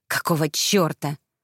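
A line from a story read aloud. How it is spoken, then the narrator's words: Hiss. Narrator (Russian): прошипела я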